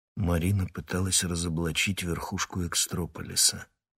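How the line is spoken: Quiet. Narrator (Russian): тихо сказала Ирина

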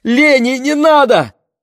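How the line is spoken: Shouting. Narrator (Russian): крикнула мама

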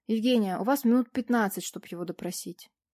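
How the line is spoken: Plain. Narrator (Russian): вспомнив, сказал он

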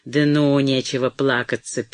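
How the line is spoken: Rough interruption. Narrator (Russian): перебил он грубо

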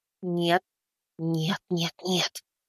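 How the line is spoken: Animal-like whisper. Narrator (Russian): переходя на животный шепот

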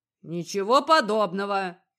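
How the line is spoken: Grumbled. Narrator (Russian): проворчал тот

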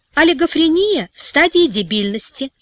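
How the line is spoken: Calm child explaining. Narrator (Russian): спокойно объяснил мальчик

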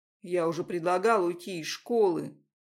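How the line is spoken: Plain. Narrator (Russian): говорит он

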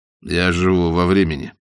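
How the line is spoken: Plain. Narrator (Russian): ответил тогда Дорнброк

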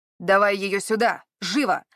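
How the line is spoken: Man barking harshly. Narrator (Russian): рявкнул мужчина

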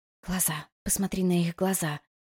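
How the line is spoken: Telepathic whisper. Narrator (Russian): мысленно прошептала Сати

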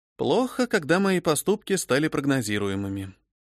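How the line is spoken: Sad, wry. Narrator (Russian): грустно скривилась я

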